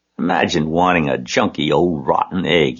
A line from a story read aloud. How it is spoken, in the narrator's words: he muttered